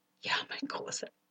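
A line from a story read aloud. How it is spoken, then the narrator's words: Whispered. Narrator (German): flüsterte sie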